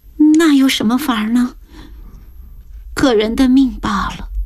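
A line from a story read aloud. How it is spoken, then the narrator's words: Tearful sigh. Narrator (Chinese): 方兰眼圈一红，叹息道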